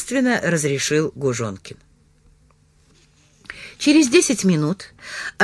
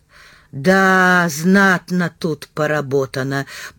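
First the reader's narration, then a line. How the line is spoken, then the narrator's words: Drawled. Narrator (Russian): протянул Северин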